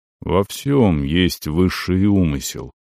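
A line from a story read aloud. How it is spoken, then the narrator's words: Quiet, absolutely convinced. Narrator (Russian): тихо произнес Оран, и в голосе его прозвучала абсолютная убежденность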